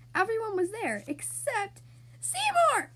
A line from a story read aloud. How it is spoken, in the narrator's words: Splat screamed